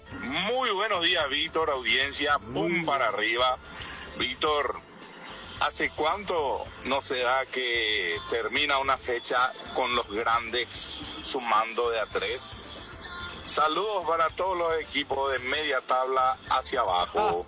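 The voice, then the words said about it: Radio announcer style voice. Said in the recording (Spanish): “con voz de locutor seguro”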